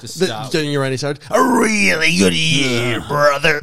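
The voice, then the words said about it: Randy Savage impression. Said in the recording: “Great Randy Savage impression”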